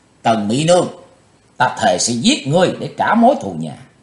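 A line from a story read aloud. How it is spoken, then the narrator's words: Loud angry shout. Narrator (Vietnamese): chàng quát lớn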